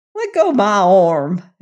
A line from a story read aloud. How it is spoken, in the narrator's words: exclaimed Judkins